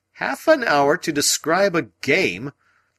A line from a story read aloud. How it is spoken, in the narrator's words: I cried indignantly